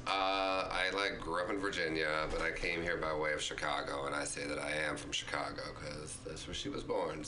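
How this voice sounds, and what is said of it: Southern drawl. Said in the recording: “let me remove the southern drawl... keep it, girl... keeps her accent”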